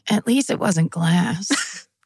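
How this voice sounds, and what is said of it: Impression of Jennifer Coolidge. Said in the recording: “That's a great impression of her.”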